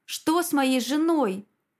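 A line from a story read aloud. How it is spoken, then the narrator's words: Roar. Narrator (Russian): взревел я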